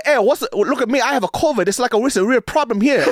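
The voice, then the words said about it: Mock Mandarin Chinese accent. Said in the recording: “he goes into this Chinese accent ... this perfect Mandarin accent ... When he did the Mandarin Chinese accent, it wasn't ching chong, ching chong.”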